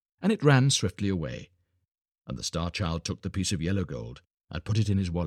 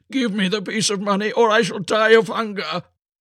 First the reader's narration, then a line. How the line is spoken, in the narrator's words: the leper cried